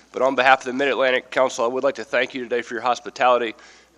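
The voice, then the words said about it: Weak, strained voice from illness. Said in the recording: “excuse my voice. I've been a bit under the weather and don't have much of a speaking voice today.”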